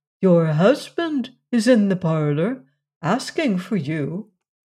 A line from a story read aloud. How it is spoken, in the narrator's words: Frederick tenderly